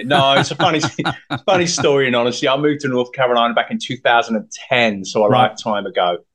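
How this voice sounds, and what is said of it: Non-North Carolina foreign accent. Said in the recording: “That doesn't sound like a North Carolina accent.”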